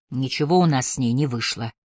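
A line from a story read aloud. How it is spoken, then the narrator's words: Grumbling. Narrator (Russian): пробурчал Бенджамин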